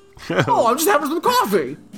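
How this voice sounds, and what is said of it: High-pitched British-style fake American accent. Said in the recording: “he sometimes makes it a little higher, so he gets real high, and then he talks like this ... It sounds like every British person that tries to do an American accent.”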